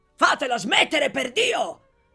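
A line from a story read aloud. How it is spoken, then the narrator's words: Exasperated shout. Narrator (Italian): gridò esasperato l'onorevole Bottecchiari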